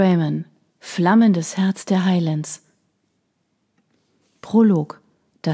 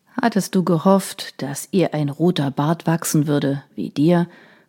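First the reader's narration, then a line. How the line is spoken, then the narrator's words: Plain. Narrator (German): fragte Troy Hamilton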